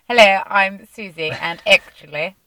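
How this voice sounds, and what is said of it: Put-on posh accent. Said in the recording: “interpret my voice in quite a posh accent”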